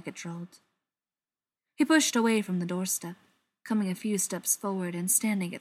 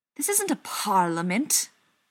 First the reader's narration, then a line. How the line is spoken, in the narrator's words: spat